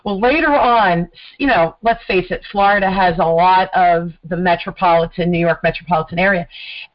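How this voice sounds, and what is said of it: New Jersey accent. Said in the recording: “I'm a Jersey girl ... I definitely have a Jersey accent.”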